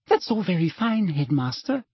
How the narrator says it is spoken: she said, smiling sweetly

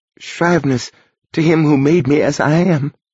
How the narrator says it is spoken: she whimpered

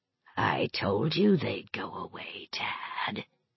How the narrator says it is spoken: it whispered

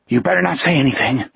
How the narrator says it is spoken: panted

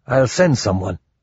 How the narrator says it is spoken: He grunted

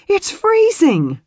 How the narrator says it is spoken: She gasped

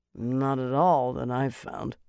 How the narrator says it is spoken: Cordwyn muttered

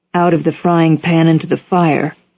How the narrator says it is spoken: Orr said

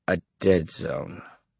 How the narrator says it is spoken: Johnny said slowly

